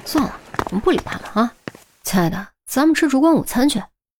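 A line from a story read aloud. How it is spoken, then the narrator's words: Muttering. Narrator (Chinese): 钱宝贝一边走还一边嘀咕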